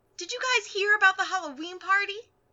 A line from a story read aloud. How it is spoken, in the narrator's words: Ashido cried